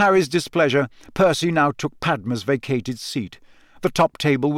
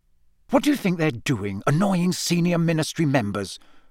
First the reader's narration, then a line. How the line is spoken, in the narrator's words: Percy hissed